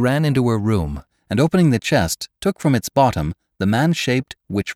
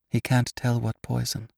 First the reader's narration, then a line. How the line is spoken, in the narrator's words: murmured Clary to herself